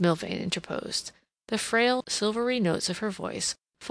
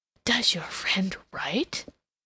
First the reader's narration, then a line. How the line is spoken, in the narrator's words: inquired in a very audible whisper